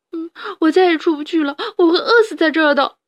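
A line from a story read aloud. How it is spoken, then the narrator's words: Loud sobbing. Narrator (Chinese): 哈布斯大哭了起来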